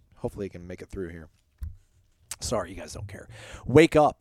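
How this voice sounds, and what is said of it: Strained, struggling voice. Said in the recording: “my voice is struggling. This is not good.”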